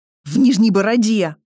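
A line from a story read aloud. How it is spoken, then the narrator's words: Snapping retort. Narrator (Russian): огрызнулся Маркус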